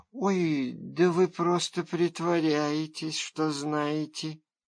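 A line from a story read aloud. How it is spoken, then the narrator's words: Disappointed drawl, young girl. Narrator (Russian): разочарованно протянула девочка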